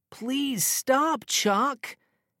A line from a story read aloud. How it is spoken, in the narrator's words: cried